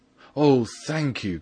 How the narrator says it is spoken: cried out, as if he were the one playing the violin

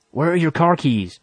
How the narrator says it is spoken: I almost shouted at him

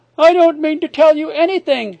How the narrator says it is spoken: she cried

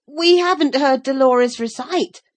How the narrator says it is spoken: said Rollo desperately

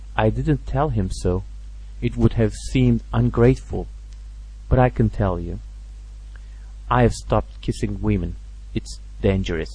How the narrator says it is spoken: he went on quietly

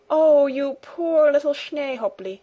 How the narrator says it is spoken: exclaimed Heidi

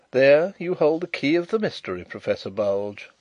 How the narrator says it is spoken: interposed Carrados quietly

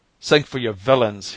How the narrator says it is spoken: cried

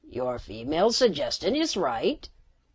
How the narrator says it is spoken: the Cerimian croaked

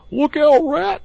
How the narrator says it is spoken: cried the Mole suddenly

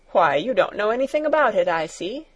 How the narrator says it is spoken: laughed Herr Sesemann

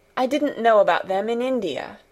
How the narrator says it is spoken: said Mary

